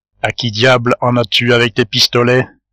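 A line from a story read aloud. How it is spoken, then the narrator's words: Plain. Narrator (French): lui dit Rodolphe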